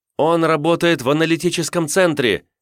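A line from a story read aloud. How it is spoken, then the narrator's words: Breathless shout from running. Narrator (Russian): крикнула Тавра, задыхаясь от бега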